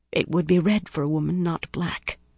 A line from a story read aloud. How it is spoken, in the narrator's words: Kumira said in almost a whisper